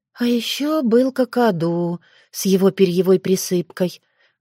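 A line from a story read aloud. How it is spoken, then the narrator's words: Sighing. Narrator (Russian): вздохнула Таня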